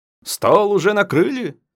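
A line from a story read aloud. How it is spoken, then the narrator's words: Deliberately cheerful voice. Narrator (Russian): нарочито бодрым голосом он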